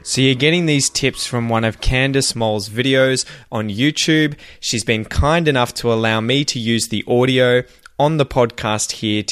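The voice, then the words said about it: General Australian accent, Melbourne. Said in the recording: “I'm from Victoria and I have a Melbourne general Australian accent”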